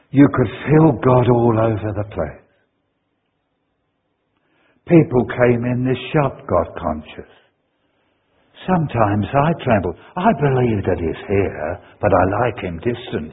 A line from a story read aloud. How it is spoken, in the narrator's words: she said